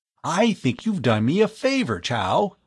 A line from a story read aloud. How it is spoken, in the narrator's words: he exclaimed